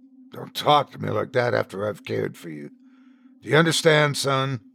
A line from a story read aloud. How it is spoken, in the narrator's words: I sighed